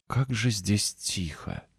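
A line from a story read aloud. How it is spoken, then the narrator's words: Whisper. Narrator (Russian): прошептала она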